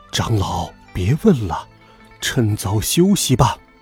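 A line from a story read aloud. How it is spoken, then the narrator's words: Low voice. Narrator (Chinese): 一成低声说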